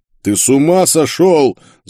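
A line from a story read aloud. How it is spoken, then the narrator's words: Yelling. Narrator (Russian): заорал Карл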